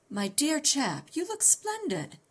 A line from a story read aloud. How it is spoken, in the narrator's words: he exclaimed